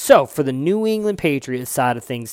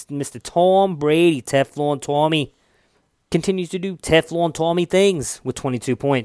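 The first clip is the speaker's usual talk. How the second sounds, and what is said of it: Exaggerated New England accent. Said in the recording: “a horrible New England accent. Probably is ... it kind of sounds Scottish, actually, when I say it that way”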